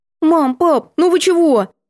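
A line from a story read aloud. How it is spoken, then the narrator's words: Cautious squeak. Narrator (Russian): Я осторожно пискнула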